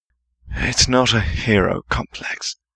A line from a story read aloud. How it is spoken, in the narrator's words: he muttered